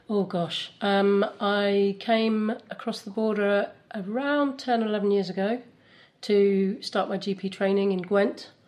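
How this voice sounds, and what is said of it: English accent. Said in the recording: “I think you're from across the border, aren't you? ... I think my accent immediately gives me away”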